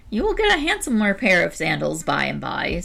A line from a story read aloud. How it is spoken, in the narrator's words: said the old woman, with a kindly look